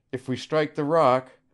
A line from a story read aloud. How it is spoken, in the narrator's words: she cried